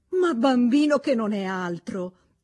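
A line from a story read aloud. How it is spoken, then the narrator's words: Exclaimed. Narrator (Italian): esclamò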